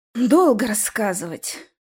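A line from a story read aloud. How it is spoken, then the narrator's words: Sigh. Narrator (Russian): вздохнул я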